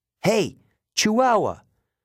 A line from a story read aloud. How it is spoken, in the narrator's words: yelled